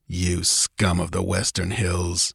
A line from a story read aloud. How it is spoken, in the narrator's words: he muttered